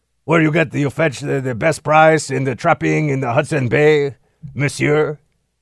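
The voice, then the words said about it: Exaggerated French-Canadian accent. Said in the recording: “I like to do like a cross between Justin Trudeau and some guy named Jean-Pierre who is, you know, trapping beaver pelts up in Hudson Bay ... I like that French, Canadian, Mountie kind of thing ... he doesn't sound like that ... my Justin Trudeau impression really needs to get a lot better”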